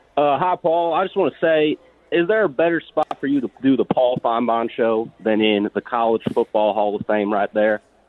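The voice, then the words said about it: Limited fake Southern accent. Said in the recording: “limited fake Southern accent”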